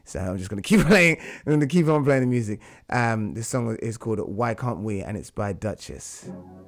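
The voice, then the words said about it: Hoarse, fading voice. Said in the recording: “As you can tell, my voice is like it's leaving me.”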